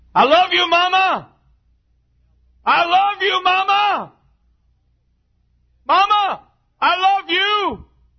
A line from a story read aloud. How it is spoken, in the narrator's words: I screamed as loud as I could